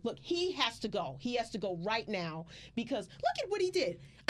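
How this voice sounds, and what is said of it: Irate entitled customer voice. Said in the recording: “my Karen impression ... You are an amazing Karen”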